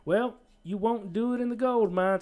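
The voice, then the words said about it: Put-on country accent. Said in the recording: “I'm doing a little country accent.”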